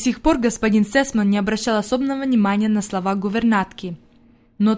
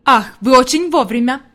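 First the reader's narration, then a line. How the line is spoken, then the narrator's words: Exclaiming. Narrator (Russian): воскликнул господин Сесман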